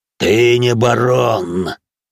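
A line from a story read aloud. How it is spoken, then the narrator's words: Growling monster. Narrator (Russian): прорычало чудище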